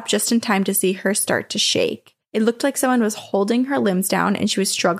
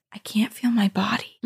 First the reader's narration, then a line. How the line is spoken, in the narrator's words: I heard her whisper